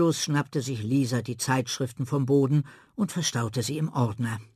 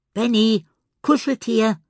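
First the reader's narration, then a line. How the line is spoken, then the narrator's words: Calling out. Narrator (German): rief sie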